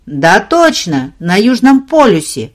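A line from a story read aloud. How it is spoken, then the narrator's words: Grumbling. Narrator (Russian): пробурчал Перегрин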